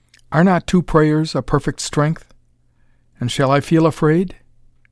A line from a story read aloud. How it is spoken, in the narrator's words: She repeated softly